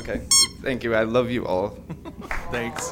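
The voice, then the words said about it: Teary, emotional voice. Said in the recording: “I'm getting all teary.”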